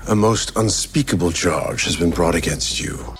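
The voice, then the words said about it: Put-on British accent. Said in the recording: “does a British accent work on Ben?”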